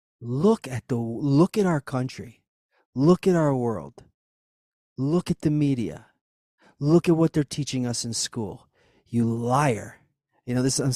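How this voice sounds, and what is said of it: Emotional, agitated speech. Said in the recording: “Getting emotional.”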